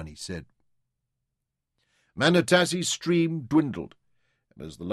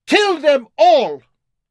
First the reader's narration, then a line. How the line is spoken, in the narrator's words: A deafening roar went up from the impis